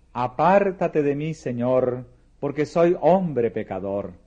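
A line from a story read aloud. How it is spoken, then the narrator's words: Exclaimed. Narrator (Spanish): Pedro exclamó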